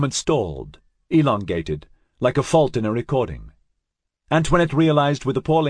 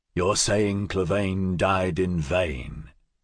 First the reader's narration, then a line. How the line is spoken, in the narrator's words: Scorpio asked him, his voice dangerously soft